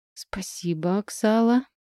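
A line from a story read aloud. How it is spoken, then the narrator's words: Muttered. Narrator (Russian): пробормотала я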